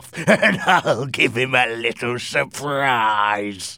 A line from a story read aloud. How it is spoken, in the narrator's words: he said, with a horrible laugh